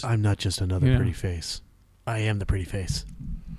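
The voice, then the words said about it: Suddenly deeper voice. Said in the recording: “my voice got deeper all of a sudden”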